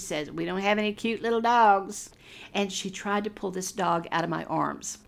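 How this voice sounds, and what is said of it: Sassy quoted voice. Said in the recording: “in her most sassy voice”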